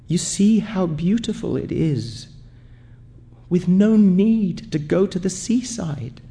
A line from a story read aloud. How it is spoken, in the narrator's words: In a trembling voice, she said